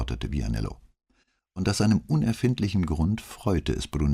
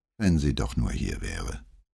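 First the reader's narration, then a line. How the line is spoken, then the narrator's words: Sigh. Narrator (German): seufzte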